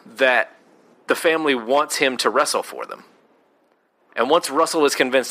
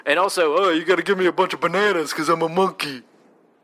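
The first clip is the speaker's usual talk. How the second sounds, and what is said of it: Weak Dom DeLuise monkey voice. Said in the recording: “This is not a great Dom DeLuise ... do a real impression of the monkey”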